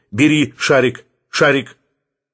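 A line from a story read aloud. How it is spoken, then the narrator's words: Whistling call. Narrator (Russian): Посвистал господин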